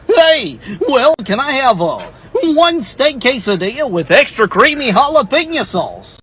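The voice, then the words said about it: Goofy cartoon voice impression. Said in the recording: “That was a pretty good impression... It started to fade as it went along... For an impression, ordering something that like Goofy wouldn't order”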